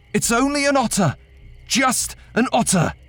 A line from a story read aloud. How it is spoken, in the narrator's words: The river swelled around me far faster than it ever should, so I shouted